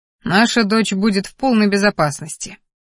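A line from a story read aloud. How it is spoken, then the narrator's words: Father's smirk. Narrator (Russian): хмыкнул Кериан, отец Ассирии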